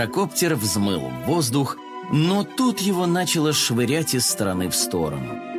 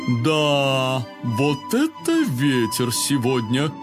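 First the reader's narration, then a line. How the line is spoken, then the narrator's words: Drawling father. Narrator (Russian): протянул папа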